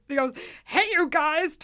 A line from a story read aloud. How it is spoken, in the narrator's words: Ty Hecht shrieked